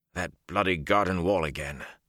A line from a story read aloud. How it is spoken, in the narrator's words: the officer muttered